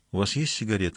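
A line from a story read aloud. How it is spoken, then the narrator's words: Plain. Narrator (Russian): спросила она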